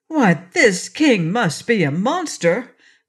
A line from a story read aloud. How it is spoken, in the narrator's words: cried Trot